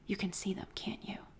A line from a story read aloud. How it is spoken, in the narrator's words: continued to whisper